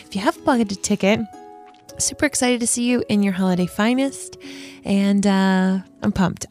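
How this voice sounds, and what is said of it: Hoarse, fading voice. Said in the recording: “I'm losing my voice. ... I think I need a hot toddy.”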